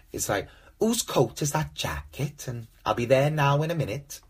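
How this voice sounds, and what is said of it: Poor put-on Welsh accent. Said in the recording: “talking of the Welsh accent ... they do sound thick as fuck ... I don't do accents or impressions very well”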